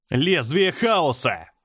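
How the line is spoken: Shout. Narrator (Russian): закричал я

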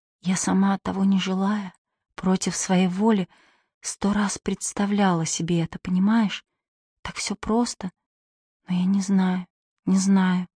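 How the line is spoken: Very quiet. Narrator (Russian): она сказала очень тихо, только чтобы он мог расслышать

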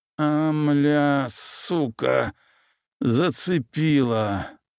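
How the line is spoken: Groaning through gritted teeth. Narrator (Russian): скрипя зубами, простонал он

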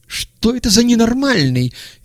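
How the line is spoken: Shrill cry. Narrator (Russian): визгливо вскрикнул Петухов

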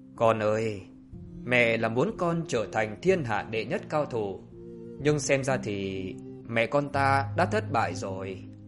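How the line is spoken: Dazed woman softly lamenting. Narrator (Vietnamese): Người đàn bà nông nổi liều lĩnh này tẫn thờ xoa bụng và khẽ than

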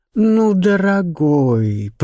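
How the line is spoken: Drawn out. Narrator (Russian): протянула Шарлотта

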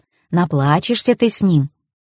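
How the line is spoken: Obliging inner whisper. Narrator (Russian): Внутренний голос услужливо шептал

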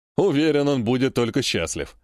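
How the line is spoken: Short chuckle. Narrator (Russian): хохотнул Коготь

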